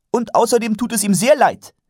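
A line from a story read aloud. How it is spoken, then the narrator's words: Sharp addition. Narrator (German): fügte Karotte scharf hinzu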